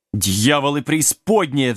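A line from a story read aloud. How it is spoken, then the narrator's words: Mad king roaring. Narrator (Russian): взревел сумасшедший король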